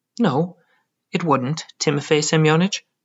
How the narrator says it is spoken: I answered sadly

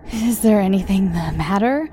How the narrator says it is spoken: she asked breathlessly

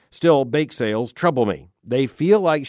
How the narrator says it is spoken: says

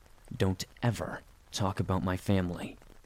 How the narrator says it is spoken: said through clenched teeth

